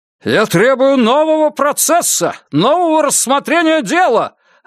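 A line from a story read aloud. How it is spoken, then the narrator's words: Yelling. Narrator (Russian): орал он на Нуза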